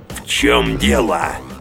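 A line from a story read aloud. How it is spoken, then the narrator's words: Growl. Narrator (Russian): прорычал знакомый голос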